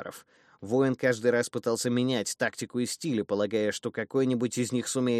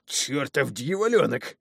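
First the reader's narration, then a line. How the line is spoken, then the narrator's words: Angry hoarse wheeze. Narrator (Russian): зло прохрипел посрамлённый воитель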